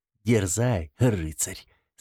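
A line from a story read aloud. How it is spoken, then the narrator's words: Laughing. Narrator (Russian): засмеялась она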